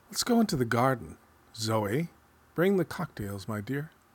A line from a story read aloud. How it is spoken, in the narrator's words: I suggested to all of them gaily